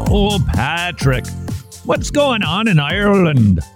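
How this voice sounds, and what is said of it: Poor put-on Irish accent. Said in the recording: “my own impression ... My apologies uh, to everyone who lives on the lovely Emerald Isle. My impersonation of you isn't so good”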